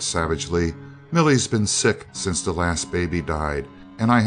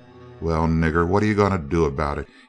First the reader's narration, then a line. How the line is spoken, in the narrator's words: he growled insolently